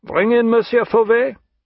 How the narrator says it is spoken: The major called out

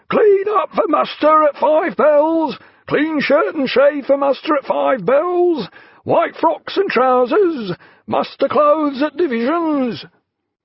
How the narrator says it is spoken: the boatswain's mates had piped down the hatchways, roaring

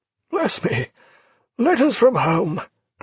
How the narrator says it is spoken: cried the admiral

